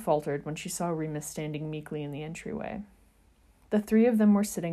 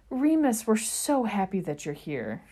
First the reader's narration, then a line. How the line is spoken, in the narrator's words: she exclaimed